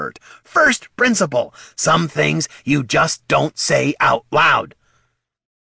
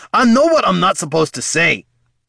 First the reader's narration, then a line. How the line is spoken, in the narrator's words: barked Gorm